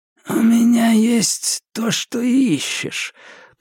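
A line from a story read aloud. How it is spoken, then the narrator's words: Sly wheezing rasp. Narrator (Russian): просипел он с хитрой улыбкой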